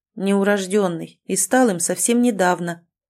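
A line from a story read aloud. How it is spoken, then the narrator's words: Cold clarification. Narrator (Russian): уточнил Мертон, холодно сверкнув глазами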